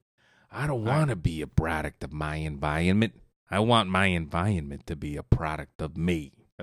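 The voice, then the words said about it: Imitates another person's voice. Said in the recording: “my best Jack Nicholson impersonation.”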